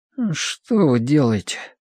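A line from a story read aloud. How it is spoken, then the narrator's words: Sleepy mumble. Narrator (Russian): пробормотал Колин сквозь сон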